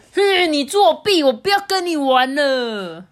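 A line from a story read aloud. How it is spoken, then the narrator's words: Angry roar. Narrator (Chinese): 这时候提亚呢赢了这一局，贾斯伯就大吼说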